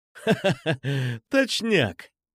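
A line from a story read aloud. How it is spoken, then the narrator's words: Laughing. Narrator (Russian): засмеялся я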